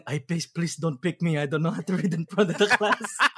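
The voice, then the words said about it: Put-on fresh-immigrant accent. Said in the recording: “with my fob accent.”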